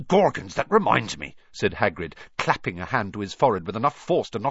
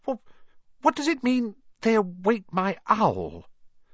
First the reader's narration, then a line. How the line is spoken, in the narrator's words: he stammered